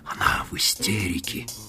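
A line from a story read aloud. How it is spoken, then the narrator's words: Whisper. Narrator (Russian): прошептал он Мадлен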